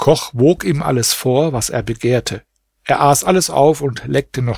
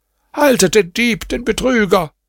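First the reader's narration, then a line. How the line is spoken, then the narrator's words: Shouted after someone. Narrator (German): schrie er ihm nach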